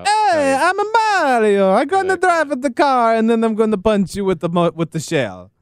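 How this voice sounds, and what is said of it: Cartoonish Italian video game accent. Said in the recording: “Italian accent. That was an Italian accent in the sense that Mario has an Italian.”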